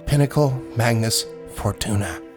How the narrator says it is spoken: Orin, the investigator, said softly

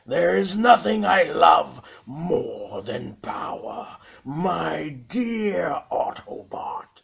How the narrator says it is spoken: he sneered at Grapple

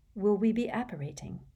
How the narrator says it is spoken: said Harry quietly

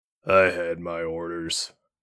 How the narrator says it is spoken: he grumbled

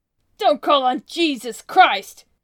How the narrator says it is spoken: shouted the captain

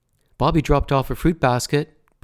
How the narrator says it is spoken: Brett called out

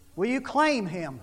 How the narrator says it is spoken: He says

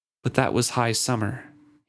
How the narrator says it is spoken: he sighed

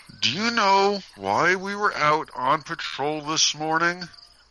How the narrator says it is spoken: Marcus asked him through clenched teeth

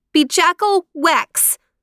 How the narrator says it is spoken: the youngest sister called out

